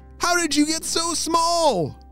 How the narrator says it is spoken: Mackenzie shouted

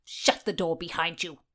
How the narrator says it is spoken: the Countess snapped

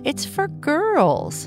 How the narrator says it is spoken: Bernice said with a laugh

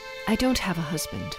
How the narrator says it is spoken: she mumbled

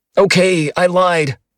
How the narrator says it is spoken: I shouted

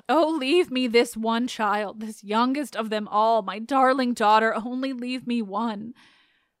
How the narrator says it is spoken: in a frenzy, fear the mother as she cowered, with all her garments and her body wailed

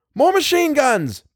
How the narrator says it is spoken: Bill yelled to Tom

